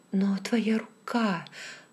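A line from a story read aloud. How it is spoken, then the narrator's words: Exclaimed. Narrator (Russian): воскликнула я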